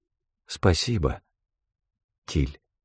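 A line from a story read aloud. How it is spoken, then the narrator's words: Quiet. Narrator (Russian): тихо произнесла она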